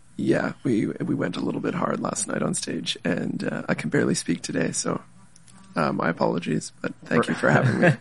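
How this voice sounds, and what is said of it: Hoarse, strained voice. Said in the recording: “your voice is a little shot from a show you just played last night”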